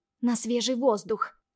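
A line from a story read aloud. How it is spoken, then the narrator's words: Through clenched teeth. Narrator (Russian): цедит сквозь зубы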